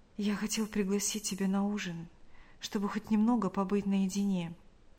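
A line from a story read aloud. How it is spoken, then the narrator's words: Whisper. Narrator (Russian): прошептал он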